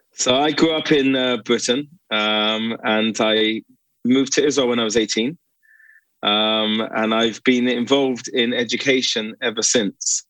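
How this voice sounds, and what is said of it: Slight British accent. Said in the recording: “Do I detect a bit of a British accent?”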